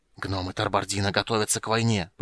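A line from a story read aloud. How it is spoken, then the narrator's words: Tense hiss. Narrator (Russian): прошипел Рейстлин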